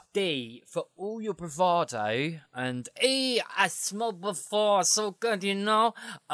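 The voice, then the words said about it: Put-on Brooklyn accent. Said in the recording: “That was my D impression. I apologise profoundly. All my Brooklynites listening to this show right now.”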